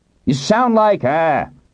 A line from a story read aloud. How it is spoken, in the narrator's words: Hiram shouted